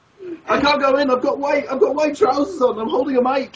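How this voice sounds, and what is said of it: Exaggerated Scottish accent. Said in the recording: “you sounded more Scottish than you ever have”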